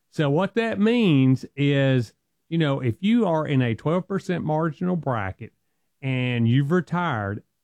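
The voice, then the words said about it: Strong Southern US accent. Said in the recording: “I'm from the South and I got a strong accent”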